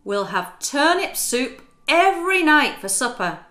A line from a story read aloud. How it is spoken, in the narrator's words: he exclaimed excitedly